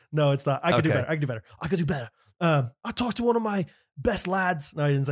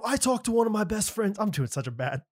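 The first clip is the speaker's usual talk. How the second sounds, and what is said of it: Put-on foreign accent. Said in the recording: “That sounds good. Accent.”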